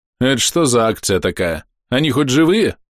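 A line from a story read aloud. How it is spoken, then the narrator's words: Snorting. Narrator (Russian): фыркнул Ниган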